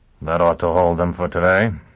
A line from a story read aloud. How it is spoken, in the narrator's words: he muttered